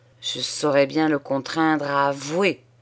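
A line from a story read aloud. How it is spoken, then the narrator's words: Growl through teeth. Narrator (French): gronda-t-il entre ses dents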